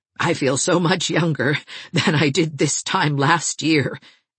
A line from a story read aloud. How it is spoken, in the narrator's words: she added with a laugh